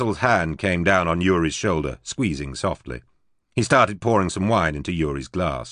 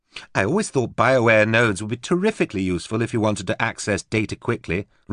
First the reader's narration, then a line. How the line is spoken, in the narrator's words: Rosette said brightly